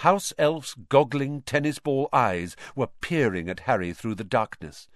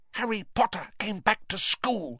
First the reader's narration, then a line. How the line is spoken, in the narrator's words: he whispered miserably